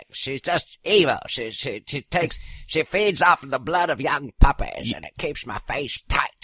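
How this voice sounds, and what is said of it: Nancy Pelosi impression, Hepburn-like English tinge. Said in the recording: “Your Nancy Pelosi sounds a lot like Katharine Hepburn ... There's a little bit more of an English accent to my...”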